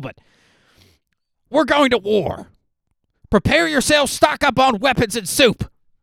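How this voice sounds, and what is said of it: Loud imitation of another person's voice. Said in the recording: “my Alex Jones impression... Sorry if that was loud also”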